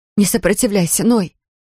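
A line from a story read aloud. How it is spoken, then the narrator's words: Pleading. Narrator (Russian): взмолилась она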